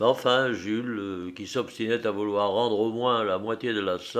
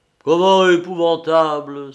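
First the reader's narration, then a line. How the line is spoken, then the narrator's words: Wounded, indignant exclamation. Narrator (French): s'écria monsieur Duvillier, blessé au vif dans son amour-propre d'artiste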